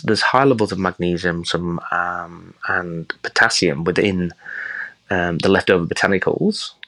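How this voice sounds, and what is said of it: English Yorkshire accent. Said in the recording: “Your accent gives away kind of where you grew up ... I'm actually from the pig capital of England ... Yorkshire”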